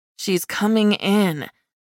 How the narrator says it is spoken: Tori said through her teeth

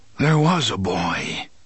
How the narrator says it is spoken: the gunslinger said in a distant, muttering voice

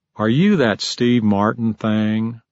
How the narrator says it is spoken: a woman … said, with some humor and a lot of drawl

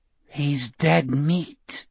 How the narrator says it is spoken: Gardner whispered

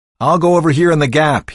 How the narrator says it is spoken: shouted

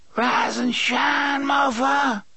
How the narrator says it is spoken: Detta screeched

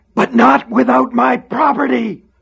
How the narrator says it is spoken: He screamed

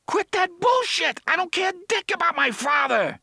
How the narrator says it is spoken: Eddie shouted hysterically

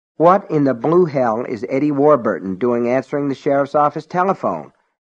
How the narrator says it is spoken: Allen asked irritably

